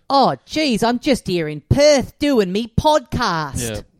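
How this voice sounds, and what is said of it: Broad Australian accent. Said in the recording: “You won't hear that sentence said in a movie in that accent.”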